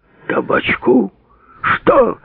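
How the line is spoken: Roaring. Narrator (Russian): взревел Гладких

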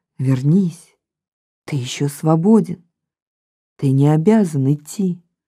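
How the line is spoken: Dreamlike inner whisper. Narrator (Russian): голос из глубины точно в сновидении шепнул

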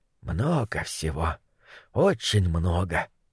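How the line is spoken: Muttered. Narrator (Russian): пробормотал он

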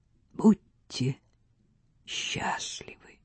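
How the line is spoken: Whisper. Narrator (Russian): Княгиня прошептала

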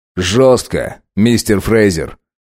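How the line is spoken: Cold reply. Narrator (Russian): холодно ответил Линкольн

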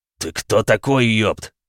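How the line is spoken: Growl. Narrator (Russian): прорычал он

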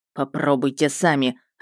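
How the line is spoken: Snapping, unrestrained. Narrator (Russian): огрызнулся Мердок, и в голосе его больше не было привычной сдержанности

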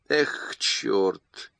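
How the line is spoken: Sighing. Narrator (Russian): вздохнул О'Брайен

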